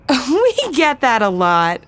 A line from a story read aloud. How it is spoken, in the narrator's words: Allison laughed